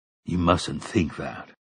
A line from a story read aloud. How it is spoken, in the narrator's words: Roland said